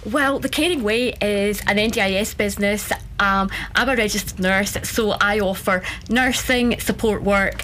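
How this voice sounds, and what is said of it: Scottish accent. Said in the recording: “don't Scottish accents just make you feel happy? ... Doesn't the Irish and the Scottish accent just make you feel happy?”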